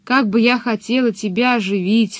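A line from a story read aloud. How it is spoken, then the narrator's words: Bitter, sighing. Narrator (Russian): сказал чудовище и горько вздохнуло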